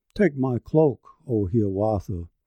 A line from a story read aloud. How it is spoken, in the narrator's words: the tree rustled in the breeze of morning, saying with a sigh of patience